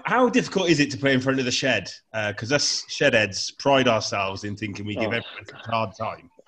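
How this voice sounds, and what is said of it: Gloucester accent. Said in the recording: “I don't know if you've noticed the accent, but I'm a Gloucester fan.”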